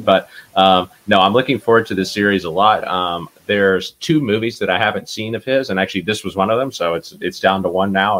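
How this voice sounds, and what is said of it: Weaker, under-the-weather voice. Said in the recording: “I am feeling a little bit under the weather, so I apologize if my dulcet tones aren't as strong as usual. ... My voice isn't quite all there”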